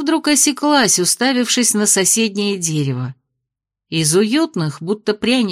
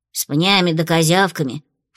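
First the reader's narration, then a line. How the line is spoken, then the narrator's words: Snorting. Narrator (Russian): фыркнула Фло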